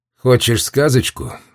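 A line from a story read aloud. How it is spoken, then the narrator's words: Sigh. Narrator (Russian): вздохнул Дьюла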